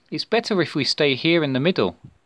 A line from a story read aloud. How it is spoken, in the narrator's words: replied